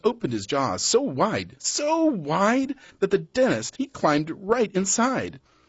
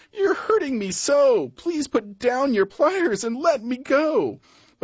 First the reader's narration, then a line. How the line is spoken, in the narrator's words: the crocodile cried